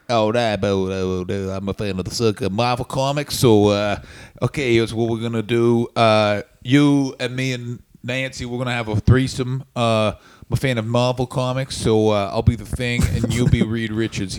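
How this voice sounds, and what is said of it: Imitates another person's voice. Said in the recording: “It's a very, very good impression. ... It really is. It's very good.”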